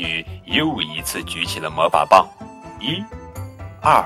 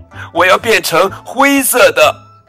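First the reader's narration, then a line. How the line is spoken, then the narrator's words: Shouting. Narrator (Chinese): 哈瓦尔叫道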